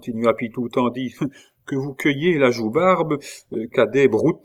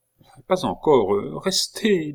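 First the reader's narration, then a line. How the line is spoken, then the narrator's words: Almost desperate. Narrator (French): dit Catherine, avec un accent presque désespéré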